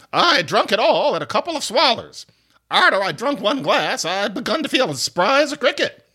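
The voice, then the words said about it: Old radio voice imitating Vera Vague. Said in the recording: “this is an old radio voice. ... That is my attempt to do Barbara Jo Allen, her Vera Vague character on Bob Hope's radio show.”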